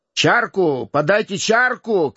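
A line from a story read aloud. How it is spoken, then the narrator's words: Rowdy reveler shouting. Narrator (Russian): кричал расходившийся гуляка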